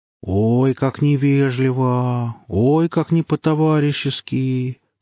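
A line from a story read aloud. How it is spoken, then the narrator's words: Ironic drawl. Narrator (Russian): протянул Гриф с иронией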